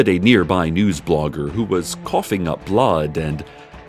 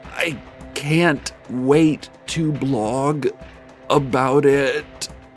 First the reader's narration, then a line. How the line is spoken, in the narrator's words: the blogger said through gritted teeth